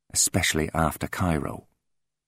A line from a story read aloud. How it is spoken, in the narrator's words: he said, his voice soft and clipped